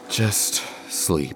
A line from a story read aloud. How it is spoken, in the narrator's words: Delphine sighed, exasperated